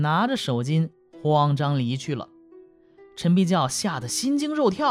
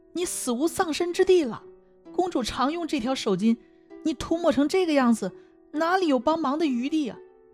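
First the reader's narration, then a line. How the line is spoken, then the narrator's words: Terrified pleading. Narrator (Chinese): 陈必教大惊失色，哀求女子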